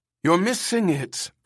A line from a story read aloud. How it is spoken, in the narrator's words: Ermgard called anxiously to Pris